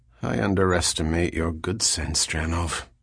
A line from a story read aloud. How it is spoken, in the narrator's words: He muttered